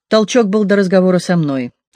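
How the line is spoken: Quick. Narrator (Russian): также быстро сказал Джо

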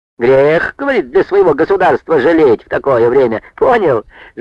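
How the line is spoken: Thin laugh. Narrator (Russian): Жиденьким смехом засмеялся Николаша

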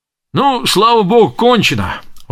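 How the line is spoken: Exclaiming. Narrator (Russian): воскликнул Астра

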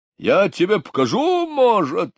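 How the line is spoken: Shouting. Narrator (Russian): закричал Булросс

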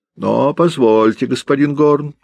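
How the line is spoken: Agitated shouting. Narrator (Russian): взволнованно кричал Брюк

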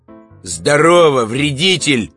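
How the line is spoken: Loud voice. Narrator (Russian): ответил громким голосом Иван

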